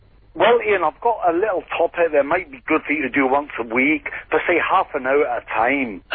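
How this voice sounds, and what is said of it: Put-on accent, slipping a bit. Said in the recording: “You're losing your accent a wee bit, Jock. ... Should I talk in my normal accent”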